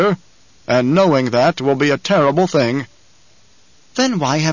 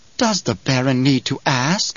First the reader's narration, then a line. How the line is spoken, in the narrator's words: Piter whispered